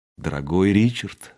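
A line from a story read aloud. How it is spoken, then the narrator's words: Quiet. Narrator (Russian): сказала она тихо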